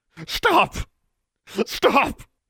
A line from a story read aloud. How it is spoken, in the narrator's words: he gasped